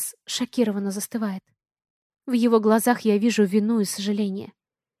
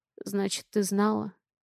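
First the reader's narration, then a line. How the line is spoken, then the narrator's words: Hoarse mutter. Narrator (Russian): хрипло бормочет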